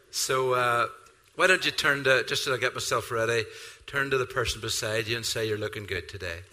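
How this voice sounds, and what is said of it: Unusual-sounding accent. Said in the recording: “my weird accent”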